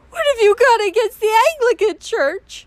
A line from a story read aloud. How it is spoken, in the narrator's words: she sobbed